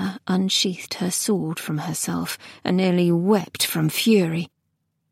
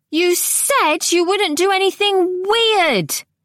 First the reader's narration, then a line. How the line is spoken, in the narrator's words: she bellowed